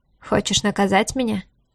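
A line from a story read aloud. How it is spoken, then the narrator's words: Grim smirk. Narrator (Russian): мрачно усмехнулся он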